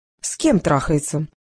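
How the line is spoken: Businesslike. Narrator (Russian): деловым тоном уточнила испанка

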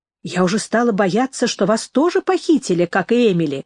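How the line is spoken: Exclaimed. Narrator (Russian): воскликнула она

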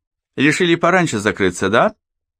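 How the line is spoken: Chuckling. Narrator (Russian): По хохотнул

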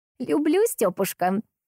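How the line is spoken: Laughing, youthful. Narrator (Russian): закивала она и рассмеялась, совсем как смеялась лет эдак 60 назад

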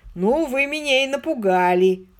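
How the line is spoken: Chuckling. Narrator (Russian): хохотнул

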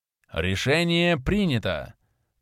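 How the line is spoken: Solemn pronouncement. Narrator (Russian): Торжественно прозвучал его голос

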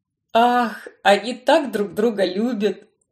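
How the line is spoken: Tender sigh. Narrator (Russian): С умилением вздохнул Барнс

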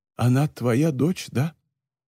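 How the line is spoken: Old woman's trembling voice. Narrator (Russian): старая женщина произнесла дрожащим голосом

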